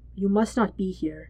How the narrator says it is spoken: says in a hushed voice

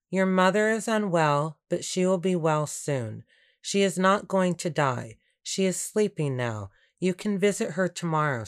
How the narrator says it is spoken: said

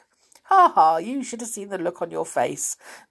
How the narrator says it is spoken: the old man laughed

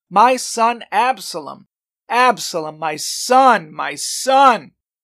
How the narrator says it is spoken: The king covered his face and cried loudly

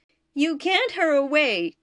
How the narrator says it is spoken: Kovac cried

